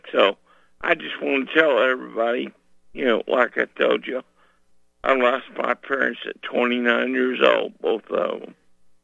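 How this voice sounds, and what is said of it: Rough, hard-to-understand voice. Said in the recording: “sorry about my voice. ... hope you can understand me.”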